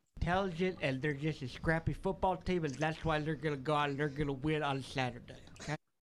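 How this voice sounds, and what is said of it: Imitates another person's voice. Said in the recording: “someone doing an impression of the Wolves. It's actually pretty good.”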